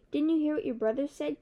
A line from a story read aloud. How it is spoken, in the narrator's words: Kiki exclaimed